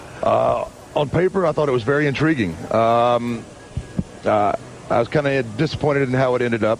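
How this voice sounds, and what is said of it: Texan accent. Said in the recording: “He's got an interesting accent, hasn't he? I just wouldn't expect him to have that sort of accent... He's a big Texan, I believe.”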